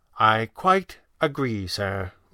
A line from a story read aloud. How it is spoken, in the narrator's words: Weston said gravely